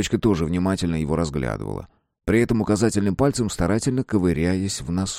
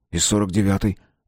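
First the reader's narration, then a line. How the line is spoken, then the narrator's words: Gruff mutter. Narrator (Russian): буркнул Выхин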